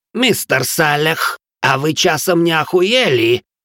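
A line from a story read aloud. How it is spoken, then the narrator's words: Furious growl. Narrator (Russian): уже прорычал доведенный до бешенства Гринривер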